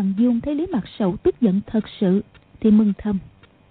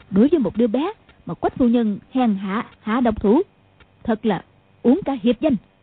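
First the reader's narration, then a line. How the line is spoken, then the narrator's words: Angry old woman. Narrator (Vietnamese): Mụ tức giận nói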